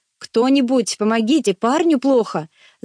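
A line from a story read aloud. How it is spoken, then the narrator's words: Shout. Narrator (Russian): закричал я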